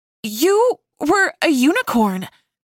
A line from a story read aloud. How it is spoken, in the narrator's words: Darcy yelled in confusion